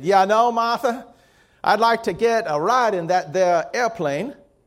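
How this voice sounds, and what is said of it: Put-on Southern accent. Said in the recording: “It's funny how my accent always goes to Southern.”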